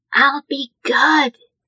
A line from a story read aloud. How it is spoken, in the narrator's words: he said, in his best attempt at a whisper